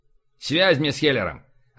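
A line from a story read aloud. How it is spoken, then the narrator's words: Irritated curt remark. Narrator (Russian): раздраженно бросил Бель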